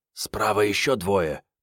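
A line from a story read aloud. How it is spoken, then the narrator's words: Whisper from behind. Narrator (Russian): прошептал сзади Санька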